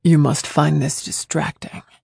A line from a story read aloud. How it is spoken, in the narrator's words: he said in a low, sexy voice